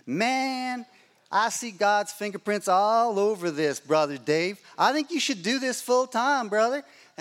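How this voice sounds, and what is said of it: Put-on Dallas Texas accent. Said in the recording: “I'm doing his Dallas accent”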